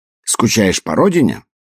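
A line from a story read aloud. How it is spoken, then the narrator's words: Sudden irritated question. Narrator (Russian): Вдруг раздраженно поинтересовался Тутси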